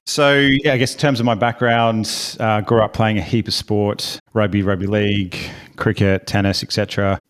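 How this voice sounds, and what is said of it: Australian accent. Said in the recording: “I am from Australia, hence the accent”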